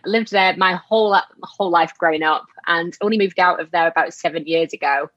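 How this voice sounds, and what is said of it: Strong Yorkshire English accent. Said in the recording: “our particular town is such a strong accent that I get asked all over: Am I from Scotland? Am I from Australia? ... the strong Yorkshire accent that I cannot shake off”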